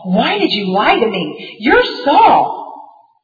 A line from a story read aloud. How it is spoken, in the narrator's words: When the woman saw Samuel, she cried out loudly to Saul